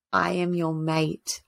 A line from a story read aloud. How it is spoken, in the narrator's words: Rowan whispered, as if it was the answer she'd sought